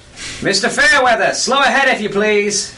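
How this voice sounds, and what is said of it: Female goblin character voice. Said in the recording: “a very clearly female goblin voice”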